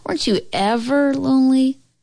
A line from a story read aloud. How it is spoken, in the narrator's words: Grandma laughed again